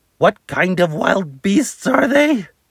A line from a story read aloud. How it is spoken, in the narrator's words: She sputtered